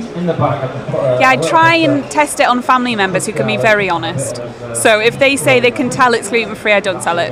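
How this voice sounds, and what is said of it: Slight north-east English twang. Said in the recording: “a slight Durham accent? ... I've got a twang from there”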